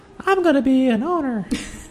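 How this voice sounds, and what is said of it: High childlike little kid voice. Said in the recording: “just my little kid voice”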